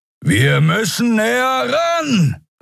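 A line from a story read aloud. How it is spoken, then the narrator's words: Shouting over howling wind. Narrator (German): rief Kero über den heulenden Fahrtwind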